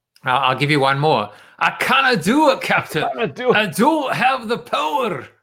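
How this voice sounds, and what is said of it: Scotty impression, Scottish accent. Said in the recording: “do a Scotty impression?”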